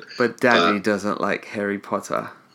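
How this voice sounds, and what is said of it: Put-on English accent. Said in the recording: “English accent? ... that's the first time I've heard you do an imitation.”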